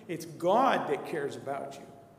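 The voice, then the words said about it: Louder, emphatic speech. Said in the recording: “Can I say that louder?”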